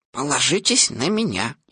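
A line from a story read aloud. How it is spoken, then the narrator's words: Whisper behind paw. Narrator (Russian): прикрыв рот лапкой, шепнул Пуху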